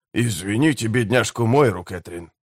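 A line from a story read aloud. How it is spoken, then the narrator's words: Whispered. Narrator (Russian): шепнул Чадли Помрой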